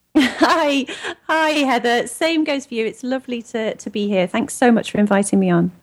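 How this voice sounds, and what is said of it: English accent. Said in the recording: “always lovely to hear an English accent”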